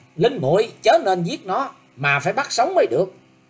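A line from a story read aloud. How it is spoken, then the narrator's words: Loud shout. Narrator (Vietnamese): Lữ Tùng Lâm ... quát to lên rằng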